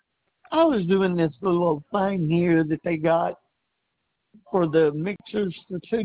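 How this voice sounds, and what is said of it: Weak, failing voice. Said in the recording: “My voice is trying to quit on me.”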